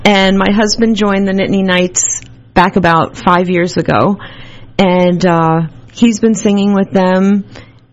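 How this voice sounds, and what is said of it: Long Island accent. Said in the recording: “I'm originally from Long Island, if you can't tell by my accent.”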